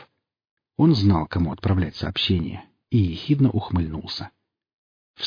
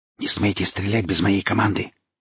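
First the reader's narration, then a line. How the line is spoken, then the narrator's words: Sharp whisper over shoulder. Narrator (Russian): шепнул профессор через плечо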